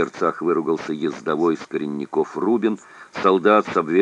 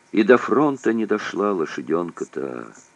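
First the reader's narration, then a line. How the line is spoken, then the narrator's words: Pitying sigh. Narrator (Russian): вздохнул с жалостью Чибисов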